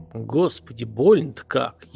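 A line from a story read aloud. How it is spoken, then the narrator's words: Barely audible moan. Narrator (Russian): еле слышно, скорее про себя простонал Артем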